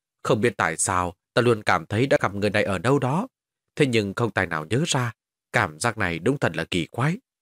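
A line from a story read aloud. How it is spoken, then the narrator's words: Muttering. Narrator (Vietnamese): Hắn lẩm bẩm nói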